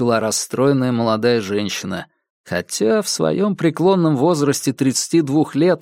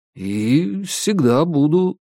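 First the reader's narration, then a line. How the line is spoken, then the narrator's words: Mumble. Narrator (Russian): промямлил я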